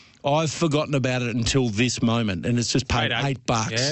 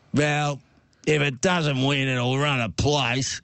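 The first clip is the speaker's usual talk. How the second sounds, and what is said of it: Gruff impersonated older man's voice. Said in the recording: “I'll do my best impersonation. He's a gruff old bugger.”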